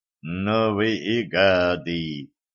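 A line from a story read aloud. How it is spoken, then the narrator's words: Said grimly. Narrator (Russian): мрачно сказал проводник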